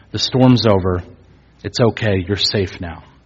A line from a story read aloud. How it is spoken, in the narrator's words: calmly opening that door and saying